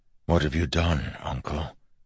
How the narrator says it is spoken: Wax asked softly

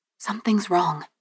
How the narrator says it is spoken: I whispered

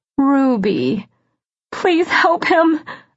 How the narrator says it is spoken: I sobbed

